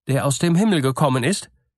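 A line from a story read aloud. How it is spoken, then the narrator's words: Boy calling out. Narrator (German): rief ihm der Junge zu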